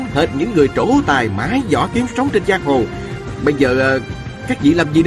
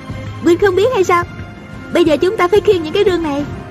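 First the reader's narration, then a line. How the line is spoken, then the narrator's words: Giggling. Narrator (Vietnamese): A Cửu cười khúc khích nói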